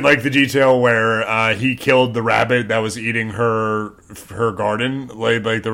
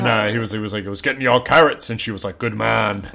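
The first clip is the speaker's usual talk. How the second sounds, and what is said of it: Put-on regional British accent. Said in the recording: “regional British accent. Good job.”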